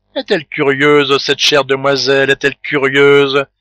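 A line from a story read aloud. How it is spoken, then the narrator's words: Housekeeper laughing. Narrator (French): dit en riant la femme de charge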